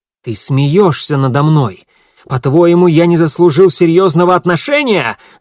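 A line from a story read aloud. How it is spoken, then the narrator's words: Shouting. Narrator (Russian): закричал Гидеон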